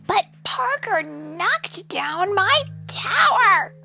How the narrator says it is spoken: Riley shouted

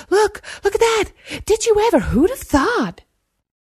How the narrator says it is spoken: his peers jabbering excitedly

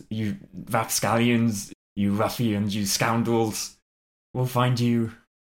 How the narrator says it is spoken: He shouts

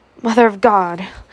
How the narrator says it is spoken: cried Scarlet, her eyes meeting Melanie's frightened eyes

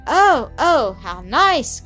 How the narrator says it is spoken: cried Elsie

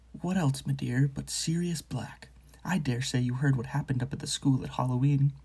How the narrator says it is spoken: he said in a quiet voice

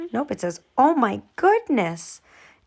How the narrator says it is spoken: exclaimed Aunt Miranda

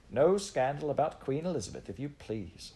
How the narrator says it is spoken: said the curate, cheerfully

